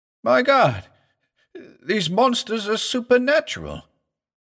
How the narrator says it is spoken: cried Chandler, shaken and appalled

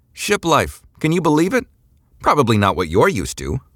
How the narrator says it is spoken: Eliza shouted over the din, apparently happy

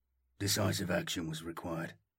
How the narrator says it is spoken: he stated flatly

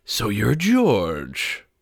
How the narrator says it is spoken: the high-pitched purr continued

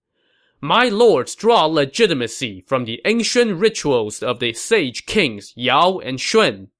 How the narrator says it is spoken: Sima Yi shouted across the line

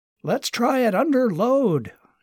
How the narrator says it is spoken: shouted Martin

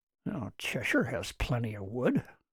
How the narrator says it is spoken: Martin muttered, but apparently not as softly as he thought

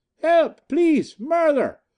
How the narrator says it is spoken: she screamed at the top of her voice

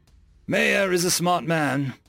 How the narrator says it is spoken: Noah chuckled

